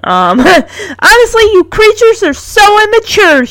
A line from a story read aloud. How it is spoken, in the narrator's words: she shouts at them